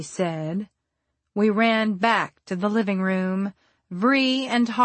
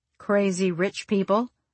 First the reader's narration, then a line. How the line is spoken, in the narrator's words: I said